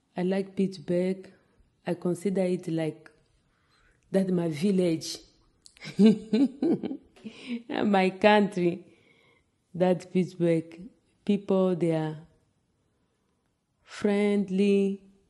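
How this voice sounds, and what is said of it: Non-native accent in English. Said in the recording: “I can speak English, but they are teasing me because of my accent.”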